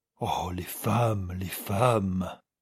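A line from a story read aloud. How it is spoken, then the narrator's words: Murmuring. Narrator (French): murmurait-il encore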